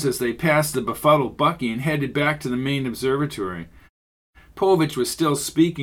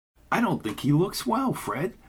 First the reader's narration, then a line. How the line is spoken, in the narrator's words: whispered Jones